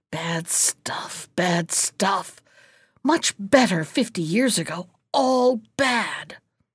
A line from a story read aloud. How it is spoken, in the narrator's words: the old hag she muttered